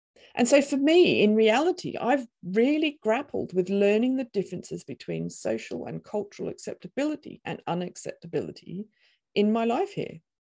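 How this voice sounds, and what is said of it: Australian accent. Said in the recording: “speak with an Australian accent”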